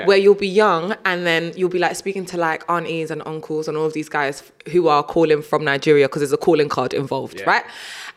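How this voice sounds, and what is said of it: Strong British accent. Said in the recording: “my voice is so British ... the British accent just got even more and more strong”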